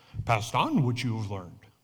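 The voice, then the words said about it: Yoda impression. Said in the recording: “Yoda telling Luke this ... a pretty good impersonation”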